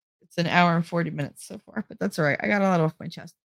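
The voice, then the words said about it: New Jersey accent. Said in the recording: “my accent ... this Jersey thing”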